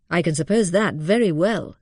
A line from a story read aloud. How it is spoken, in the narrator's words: said Mary dryly